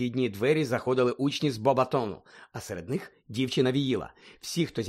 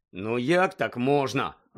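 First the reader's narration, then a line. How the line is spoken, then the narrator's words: Irritated grumble. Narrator (Ukrainian): роздратовано буркнув Рон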